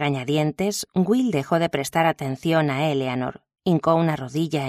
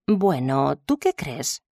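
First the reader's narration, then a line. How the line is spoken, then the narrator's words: Plain question. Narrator (Spanish): preguntó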